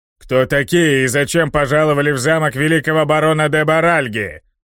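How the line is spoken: Booming guard's shout. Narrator (Russian): Зычно прокричал один из гвардейцев

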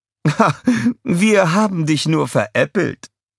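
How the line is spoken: Queen laughing. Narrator (German): die Königin lachte

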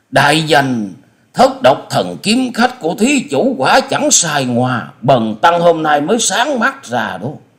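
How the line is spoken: Excited exclamation. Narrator (Vietnamese): Diên Ngữ đại sư không dằn được tâm tình khích động, chép miệng reo lên

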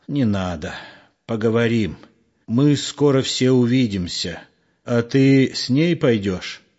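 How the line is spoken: Blunt question. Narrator (Russian): прямо спросил Егор

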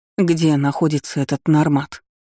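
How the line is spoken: Trembling question, aunt. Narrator (Russian): дрожащим голосом спросила тетушка

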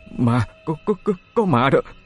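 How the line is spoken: Stammering. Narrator (Vietnamese): Cậu lắp bắp nói

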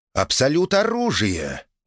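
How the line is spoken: Surprised exclamation. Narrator (Russian): удивленно воскликнула Эмилия

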